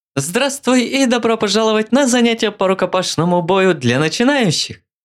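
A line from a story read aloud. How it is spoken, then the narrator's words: Cheerful. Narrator (Russian): весело сказал блондин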